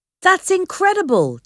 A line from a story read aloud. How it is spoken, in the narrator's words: Disco exclaimed